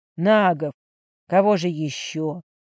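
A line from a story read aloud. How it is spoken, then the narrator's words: Deep sigh. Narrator (Russian): глубоко вздохнув, сказал Орден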